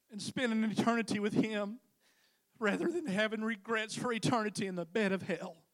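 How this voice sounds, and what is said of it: Emotional, moved speaking voice. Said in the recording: “I shouldn't be getting emotional”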